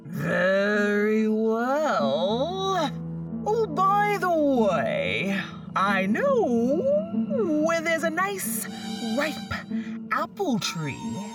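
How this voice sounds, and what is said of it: Calm wolf character voice. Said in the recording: “This made the wolf very mad, but in a calm voice he said,”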